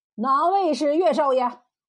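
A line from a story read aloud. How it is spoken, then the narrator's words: Loud question. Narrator (Chinese): 汪天赐……高声问道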